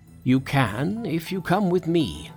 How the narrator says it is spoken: said the planet, called in a loud voice

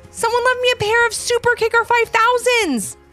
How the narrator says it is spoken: Aliyah shouted

